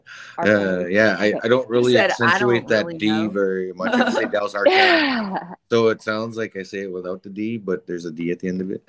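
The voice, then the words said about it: Heavy Canadian reservation accent. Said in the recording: “I just got a heavy res accent. I'm from the res, eh? ... I got that res. I'm resy. ... I can hear the Canadian in your accent too.”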